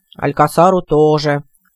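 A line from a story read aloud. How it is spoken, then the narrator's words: Deep booming drone. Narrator (Russian): прогудел отец Тук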